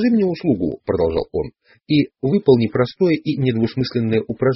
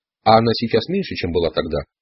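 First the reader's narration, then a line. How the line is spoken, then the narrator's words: Plain question. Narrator (Russian): спросил Дон Хуан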